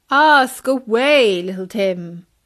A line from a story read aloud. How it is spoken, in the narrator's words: boomed Bertie